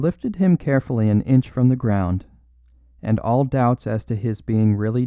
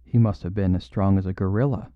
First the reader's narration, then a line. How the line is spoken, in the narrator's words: he muttered